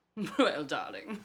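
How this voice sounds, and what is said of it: Put-on British accent, not very good. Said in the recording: “I think I have a better British accent than you do. And that one isn't even a very good one.”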